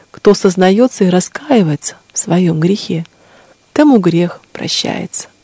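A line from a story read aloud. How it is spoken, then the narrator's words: Gentle, lady ruler. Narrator (Russian): сказала ей владычица ласково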